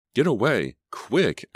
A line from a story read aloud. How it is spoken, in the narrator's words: Emma exclaimed